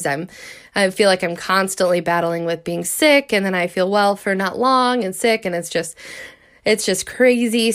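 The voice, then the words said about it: Stuffed-up, congested voice. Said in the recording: “I sound stuffed up because I am getting better”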